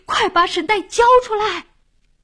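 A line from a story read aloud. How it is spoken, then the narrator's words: Loudest shout. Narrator (Chinese): 老王喊的声音最响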